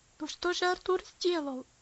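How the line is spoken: Pleading. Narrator (Russian): взмолился Герберт

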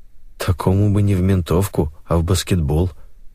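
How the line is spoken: Muttering. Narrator (Russian): пробормотал Алексей

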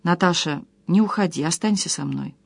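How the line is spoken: Hoarse emotional whisper. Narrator (Russian): прошептал севшим от волнения голосом

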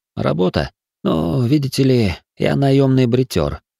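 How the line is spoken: Calm. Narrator (Russian): спокойно произнес Рафа

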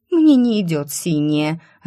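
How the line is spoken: Offended. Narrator (Russian): обиженно проговорила Циковия

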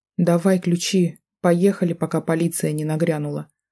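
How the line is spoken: Weary. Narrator (Russian): устало произнесла

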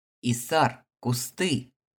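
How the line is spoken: Shouting knight. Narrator (Russian): крикнул рыцарь в черных доспехах

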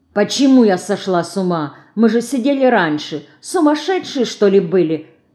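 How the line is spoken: Offended grumbling. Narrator (Russian): обиженно ворчит Динка

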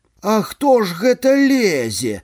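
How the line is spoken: Silly singsong wail. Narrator (Belarusian): Зусім па-дурному заспявала гаспадыня

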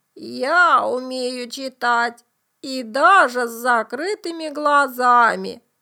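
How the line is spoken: Creaky voice. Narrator (Russian): сказал курьер своим скрипучим голосом

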